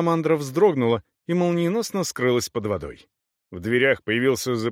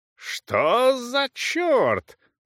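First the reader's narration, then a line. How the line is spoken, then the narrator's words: Roaring bellow. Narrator (Russian): взревел сэр Чарльз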